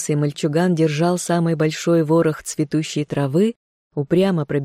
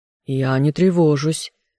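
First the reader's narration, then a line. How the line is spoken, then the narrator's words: Through gritted teeth. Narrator (Russian): выдавил сквозь зубы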